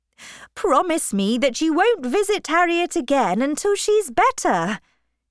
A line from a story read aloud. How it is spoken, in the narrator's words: cried